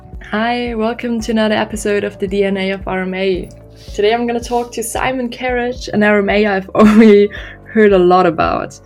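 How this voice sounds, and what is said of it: Sick, rough-sounding voice. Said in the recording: “I was sick and my voice sounds horrible”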